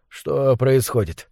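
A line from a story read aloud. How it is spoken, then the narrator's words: Hoarse sleepy voice. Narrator (Russian): спросил он хриплым со сна голосом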